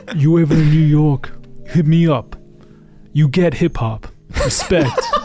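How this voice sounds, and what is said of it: Imitates another person's voice. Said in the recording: “This is a terrible impression.”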